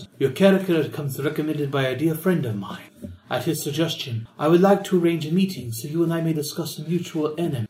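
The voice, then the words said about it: Elegant woman's character voice, accented. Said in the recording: “a woman's voice, elegant, tinged with a Denoran accent.”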